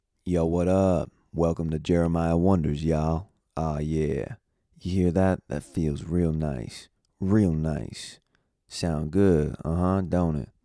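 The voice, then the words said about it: Deeper-than-usual morning voice. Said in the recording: “I got that morning voice right now ... your throat is making your voice a little bit more deep than it normally is”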